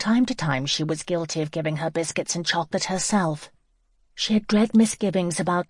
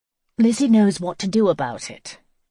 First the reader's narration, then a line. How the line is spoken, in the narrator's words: Clarissa had said dryly